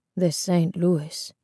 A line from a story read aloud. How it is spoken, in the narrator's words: Isabel's grandfather said softly